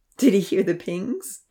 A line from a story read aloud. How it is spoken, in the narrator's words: Ponzi giggled